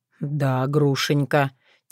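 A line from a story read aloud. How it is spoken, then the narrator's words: Soft, deep, tender bass. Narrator (Russian): тихо произнес он густым басом, в котором трепетали бархатные нотки нежности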